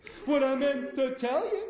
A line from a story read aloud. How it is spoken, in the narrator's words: the monkey hollered